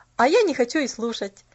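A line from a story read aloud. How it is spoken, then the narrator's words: Cheerful retort. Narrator (Russian): Весело отпарировать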